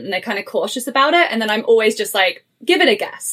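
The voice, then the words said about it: English accent, often mistaken for Australian. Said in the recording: “I get Australian as the first guess consistently... I hear an accent... I go back home to England”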